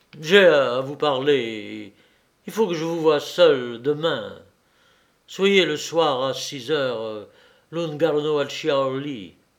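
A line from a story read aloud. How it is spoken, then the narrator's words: Imperious and pleading voice. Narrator (French): De Chartres dit à Thérèse d'une voix impérieuse et suppliante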